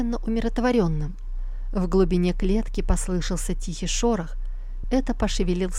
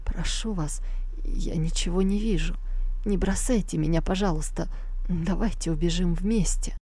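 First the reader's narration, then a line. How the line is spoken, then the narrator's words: Weak, strained voice. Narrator (Russian): Юноша с трудом произнес слабым голосом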